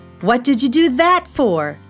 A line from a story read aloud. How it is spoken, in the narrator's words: shouted Felix